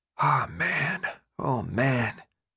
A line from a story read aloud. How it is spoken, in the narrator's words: Minho whispered